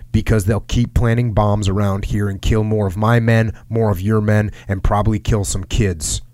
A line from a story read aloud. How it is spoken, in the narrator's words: Travis said